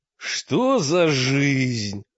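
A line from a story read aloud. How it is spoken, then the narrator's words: Howling. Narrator (Russian): взвыл мрак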